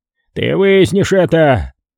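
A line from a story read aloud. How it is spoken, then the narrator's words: Growling. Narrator (Russian): Рычал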